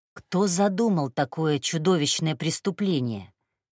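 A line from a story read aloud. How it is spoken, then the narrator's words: Plain. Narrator (Russian): сказала Каджун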